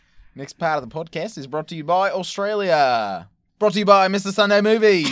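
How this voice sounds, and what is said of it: Good put-on Australian accent. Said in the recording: “let's do an Australian section ... I've got to get into an Australian accent ... Oh my gosh, that's really good.”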